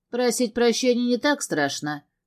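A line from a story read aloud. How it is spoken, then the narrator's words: Wry snort. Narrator (Russian): хмыкнул Габриэль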